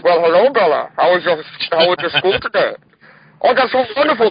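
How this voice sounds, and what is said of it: Bane character voice. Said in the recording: “the Bane voice ... Aren't you doing the voice now?”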